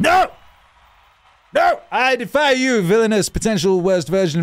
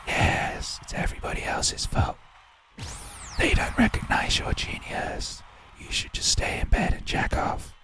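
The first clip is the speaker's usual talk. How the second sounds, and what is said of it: Sneaky whispering voice like Wormtongue. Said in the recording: “That's whispering in your ear. Like that worm tongue from Lord of the Rings.”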